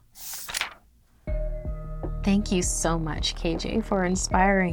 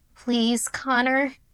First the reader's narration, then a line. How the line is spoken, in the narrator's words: he had pleaded